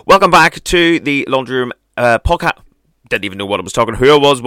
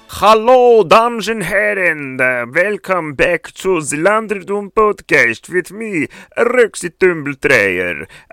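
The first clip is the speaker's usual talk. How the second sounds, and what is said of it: Put-on unidentified foreign accent. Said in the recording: “I actually don't know what that accent is, but I just was feeling it there for the second”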